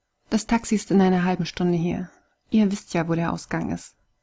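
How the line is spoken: Cold. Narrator (German): sagte Kai kalt

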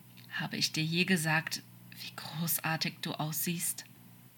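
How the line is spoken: Soft question. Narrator (German): fragte Crawley leise

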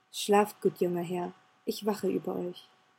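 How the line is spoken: Said softly. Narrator (German): sagte leise

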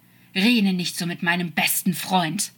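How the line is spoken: Hissing. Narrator (German): fauchte er

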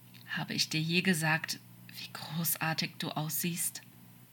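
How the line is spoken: Quiet question. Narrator (German): fragte Crawley leise

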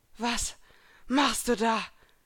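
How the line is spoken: Panting question. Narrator (German): fragte die Rothaarige keuchend

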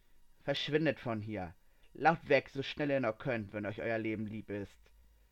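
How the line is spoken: Calm, chilling voice. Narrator (German): sprach sie ruhig, aber mit einer Stimme, die einem das Blut in den Adern gefrieren ließ

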